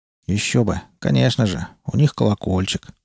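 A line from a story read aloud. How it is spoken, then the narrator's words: Grumble. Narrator (Russian): проворчал Малдер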